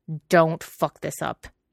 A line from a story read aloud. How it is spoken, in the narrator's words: he growled, far beyond caring